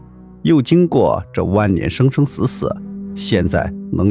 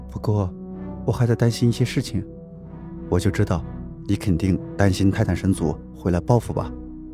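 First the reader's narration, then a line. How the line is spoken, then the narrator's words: Soft voice. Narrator (Chinese): 龙吟轻声道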